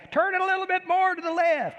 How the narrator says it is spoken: she'd holler out the window of the house

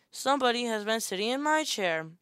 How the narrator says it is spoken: said the middle bear in her middle voice

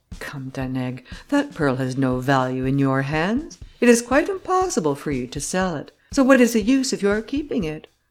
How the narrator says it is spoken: Grimaudan added in a milder tone

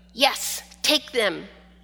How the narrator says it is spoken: Shushu barked

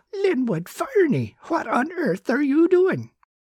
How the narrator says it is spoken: She gasped

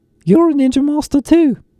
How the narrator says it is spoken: called out from his nearby perch

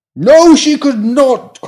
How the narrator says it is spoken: cried the indignant pram

